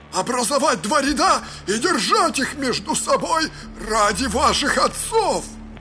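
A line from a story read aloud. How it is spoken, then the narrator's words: Shouted, guard. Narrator (Russian): Другой охранник крикнул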